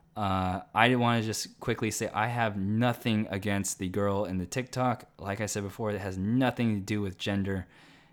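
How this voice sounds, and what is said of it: Strained, fading voice. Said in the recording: “I'm losing my voice in the process”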